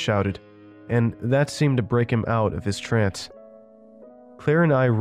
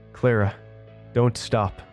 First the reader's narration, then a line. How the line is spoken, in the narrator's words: I said between breaths